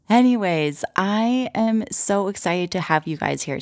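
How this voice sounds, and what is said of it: Raspy, hoarse voice. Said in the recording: “my voice sounds a little bit strange right now ... I accidentally inhaled a bunch of protein powder ... talking kind of like Miley Cyrus ... still a little bit raspy”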